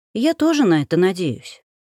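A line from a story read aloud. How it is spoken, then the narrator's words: Sigh. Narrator (Russian): вздохнула я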